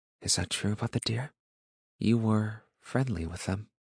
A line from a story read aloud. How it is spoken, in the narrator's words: There was wonder in her eyes as she whispered